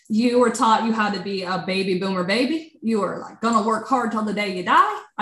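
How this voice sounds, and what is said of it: Put-on country accent. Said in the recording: “I don't know why I'm having a country or accent.”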